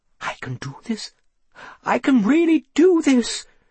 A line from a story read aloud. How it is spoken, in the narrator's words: she said excitedly